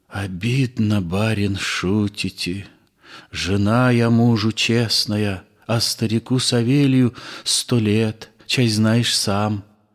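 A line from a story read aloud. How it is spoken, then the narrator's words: Whispered reply. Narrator (Russian): Я шепотком ответила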